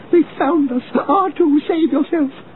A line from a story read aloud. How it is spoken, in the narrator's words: 3PO cried out